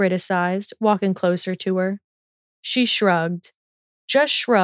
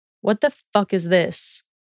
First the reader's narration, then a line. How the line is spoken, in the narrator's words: He spat